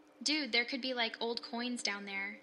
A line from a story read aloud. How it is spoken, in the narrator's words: he'd said